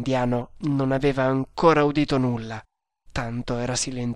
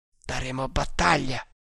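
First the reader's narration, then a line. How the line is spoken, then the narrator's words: Firm voice. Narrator (Italian): disse poi con voce ferma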